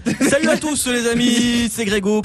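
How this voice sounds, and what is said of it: Put-on southern French accent. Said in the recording (French): “on aurait dit Benoît Magimel dans Marseille, t'as commencé avec l'accent du sud, après t'as arrêté.”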